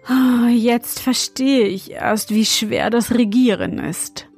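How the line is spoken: Deep sigh. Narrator (German): meinte er und seufzte tief

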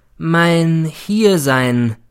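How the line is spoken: Slow, emphatic. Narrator (German): begann er wieder langsam und betont

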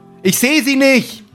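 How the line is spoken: Calling back. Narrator (German): ruft Gerd zurück

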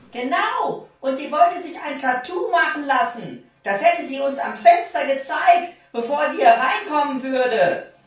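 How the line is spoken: Calling out. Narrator (German): die mittlere Schwester rief

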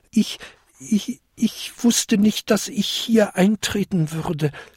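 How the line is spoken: Small goblin stammering. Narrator (German): stammelte der kleinste Winterkobold

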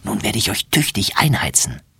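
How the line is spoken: Whispered. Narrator (German): flüstert sie

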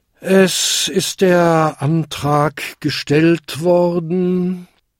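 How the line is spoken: Tired. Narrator (German): sagte der müde Versammlungsleiter schließlich

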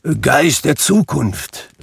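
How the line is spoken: Calling out. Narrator (German): rief er

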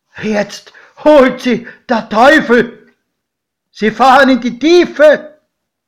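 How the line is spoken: Shout. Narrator (German): schrie mein Pate

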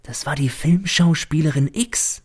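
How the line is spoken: Servant whispering. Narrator (German): flüstert der Diener zu

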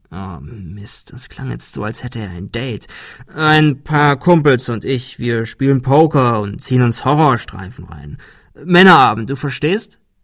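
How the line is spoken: Hesitant addition. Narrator (German): fügte er zögernd hinzu

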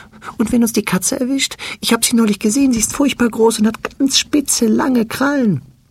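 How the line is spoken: Fearful question. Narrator (German): Ängstlich fragt es

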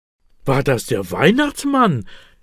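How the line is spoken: Excited question. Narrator (German): will Elias aufgeregt wissen

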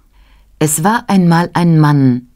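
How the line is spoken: Plain. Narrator (German): sagte sie

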